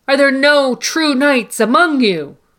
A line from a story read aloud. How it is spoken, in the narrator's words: in a moment of rage and despair, he shouts